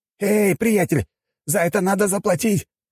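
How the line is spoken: Furious shouting. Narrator (Russian): кричал разъяренный продавец

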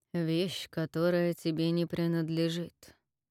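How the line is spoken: Calm, chilling voice. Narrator (Russian): сказал он спокойно, но от его голоса Кэтча охватила дрожь

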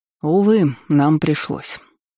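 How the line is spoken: Sighing. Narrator (Russian): вздохнул Най

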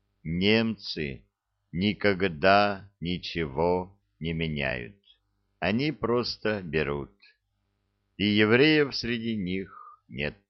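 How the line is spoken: Slow and deliberate. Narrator (Russian): Хозяин медленно и раздельно произнес

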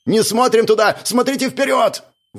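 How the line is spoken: Shout. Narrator (Russian): выкрикнул Светляк

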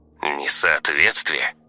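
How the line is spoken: Old man's scoffing snort. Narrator (Russian): старик фыркнул

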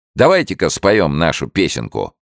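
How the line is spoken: Cheerful exclamation. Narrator (Russian): весело воскликнул Генри

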